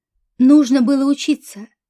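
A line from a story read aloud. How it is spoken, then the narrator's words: Sharp interruption. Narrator (Russian): резко прервал ее Борис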